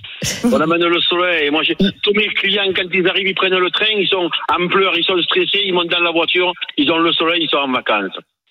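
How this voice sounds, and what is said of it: Regional southern French accent. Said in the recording (French): “il nous amène le soleil ... le plus bel accent de France et de Navarre ... votre accent”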